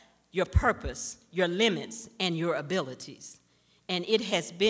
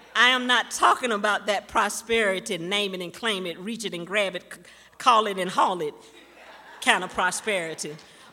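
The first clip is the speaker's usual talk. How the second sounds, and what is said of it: Impression of a pastor's preaching voice. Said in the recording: “in my best Pastor Allen voice”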